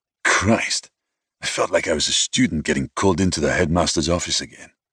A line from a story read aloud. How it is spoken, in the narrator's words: Vincent muttered